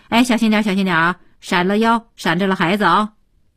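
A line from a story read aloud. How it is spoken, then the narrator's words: Repeated urgent warning. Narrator (Chinese): 连连地说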